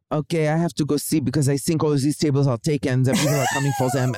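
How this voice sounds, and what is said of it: Put-on French accent. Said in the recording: “He had a French accent”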